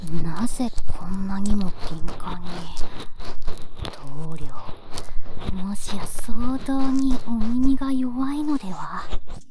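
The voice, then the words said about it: Whispering. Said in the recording (Japanese): “私のささやき声”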